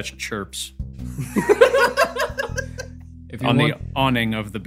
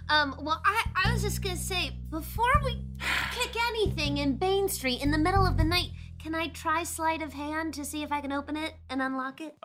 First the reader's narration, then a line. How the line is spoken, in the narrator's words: Lorzach chirps